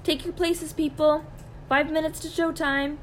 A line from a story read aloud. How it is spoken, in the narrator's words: Miss Rice called out